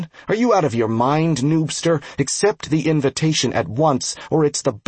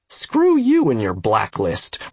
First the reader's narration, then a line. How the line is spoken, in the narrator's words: Ross snarled